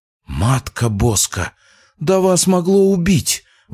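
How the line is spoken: Exclaiming. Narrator (Russian): воскликнула Люция Мечиславовна

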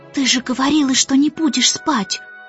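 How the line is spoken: Reproachful whisper. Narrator (Russian): укоризненно прошептал

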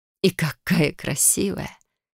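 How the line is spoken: Soft smiling whisper, mother. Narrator (Russian): с мягкой улыбкой прошептала матушка

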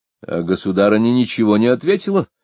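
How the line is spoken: Displeased exclamation. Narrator (Russian): недовольным тоном воскликнул Каменский

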